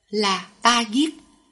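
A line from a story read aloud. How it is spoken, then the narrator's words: Smiling. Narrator (Vietnamese): mỉm cười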